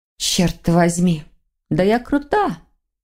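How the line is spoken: Smug snort. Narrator (Russian): хмыкнула Воронцова

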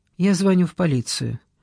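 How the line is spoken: Even tone. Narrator (Russian): ровным тоном сказал

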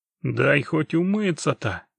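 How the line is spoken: Grumbling. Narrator (Russian): проворчал Геральт

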